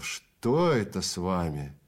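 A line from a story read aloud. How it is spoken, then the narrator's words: Groaned. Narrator (Russian): Экельс застонал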